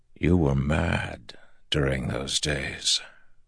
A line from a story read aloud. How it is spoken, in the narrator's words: Rand said softly